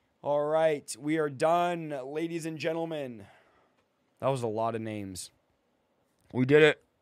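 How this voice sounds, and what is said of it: Strained, sore-sounding voice. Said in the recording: “apologize for my voice... my voice is hurting”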